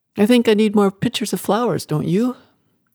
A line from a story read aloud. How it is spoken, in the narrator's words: Kate laughed